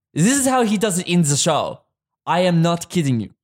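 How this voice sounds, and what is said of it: Put-on Hungarian accent, slightly Transylvanian. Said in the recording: “Do that in a Hungarian accent ... It's a little bit Transylvanian. ... But it's nice.”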